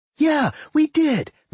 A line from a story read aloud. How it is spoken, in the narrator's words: Millie yelled